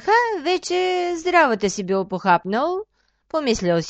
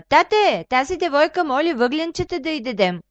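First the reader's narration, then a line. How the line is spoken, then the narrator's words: Girl calling out. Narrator (Bulgarian): дъщерята на Аждаха викнала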